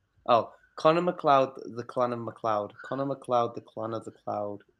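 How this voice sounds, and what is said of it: Attempted fake Scottish accent. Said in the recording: “You can't do it. ... I can't do it. ... Still a better Scottish accent than him.”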